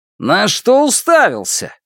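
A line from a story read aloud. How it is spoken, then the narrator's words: Guard shouting. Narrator (Russian): крикнул охранник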